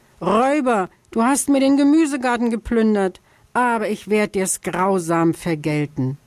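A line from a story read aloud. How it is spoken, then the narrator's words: Angry scream. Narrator (German): schrie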